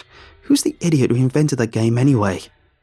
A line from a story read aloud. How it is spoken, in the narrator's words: I snapped back